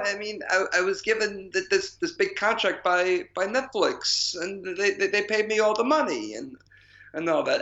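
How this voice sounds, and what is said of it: Poor imitation of another person's voice. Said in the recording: “That is the poorest attempt at an Adam Sandler accent.”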